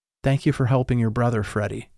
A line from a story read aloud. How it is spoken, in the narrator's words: she whispered